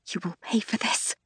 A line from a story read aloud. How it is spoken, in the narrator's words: I whisper